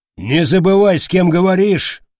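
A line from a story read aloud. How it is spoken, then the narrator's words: Barking. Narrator (Russian): рявкнул Штыпсель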